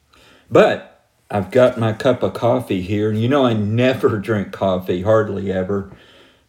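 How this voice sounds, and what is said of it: Slightly hoarse, strange-sounding voice. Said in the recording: “my voice is a little strange sounding ... I'm getting over a little hoarseness”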